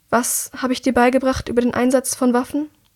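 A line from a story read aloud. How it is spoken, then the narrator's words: Calm question. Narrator (German): fragt sie ruhig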